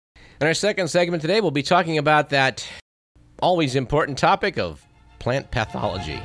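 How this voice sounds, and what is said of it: Raspy, hoarse voice. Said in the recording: “I need to apologize in advance for my raspy voice... left me a bit windburned and sunburned. And there may be a bit of a summer virus involved too”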